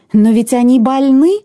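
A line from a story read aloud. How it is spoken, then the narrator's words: Exclaiming. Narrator (Russian): воскликнула мама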